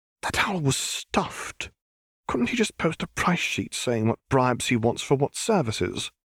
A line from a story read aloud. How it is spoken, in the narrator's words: Hermione complained in an angry whisper